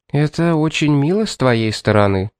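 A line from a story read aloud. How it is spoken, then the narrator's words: Calm. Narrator (Russian): спокойно сказала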